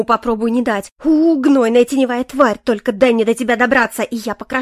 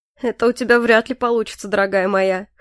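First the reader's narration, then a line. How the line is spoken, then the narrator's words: Snorting. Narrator (Russian): Хмыкнул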